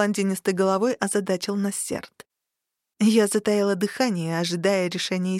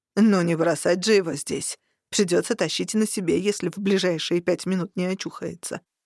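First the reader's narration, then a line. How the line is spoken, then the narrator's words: Displeased grumbling. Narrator (Russian): буркнул Варук, недовольно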